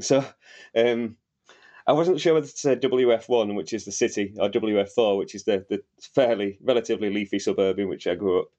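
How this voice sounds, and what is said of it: Northern English Wakefield accent. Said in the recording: “my accent, which may not be apparent to anyone who's not Northern, but the Wakefield accent is quite distinctive, largely because it's only got one vowel. ... It's a bit like a Hull accent, but it's lazier”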